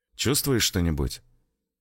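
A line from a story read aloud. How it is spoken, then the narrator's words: Quiet question. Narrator (Russian): негромко поинтересовался Петров у Николая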